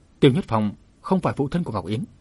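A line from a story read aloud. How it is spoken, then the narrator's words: Stern. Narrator (Vietnamese): nghiêm giọng nói tiếp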